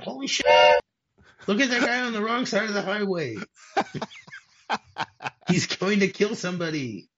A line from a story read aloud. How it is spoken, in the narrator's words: a voice that screams out